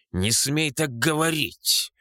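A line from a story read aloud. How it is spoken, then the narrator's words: Growl. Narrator (Russian): рыкнул балбес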